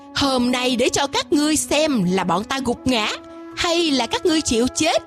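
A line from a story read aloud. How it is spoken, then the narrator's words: Loud laughing. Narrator (Vietnamese): Quỷ Vương kề sát bên Ngọc Dương Tử cũng vỗ tay cười lớn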